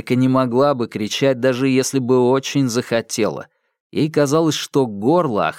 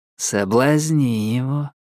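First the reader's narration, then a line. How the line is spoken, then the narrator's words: Soft good-humored whisper. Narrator (Russian): шепнул тихий голос, напоминающий ей голос Микаэла, когда та была в хорошем расположении духа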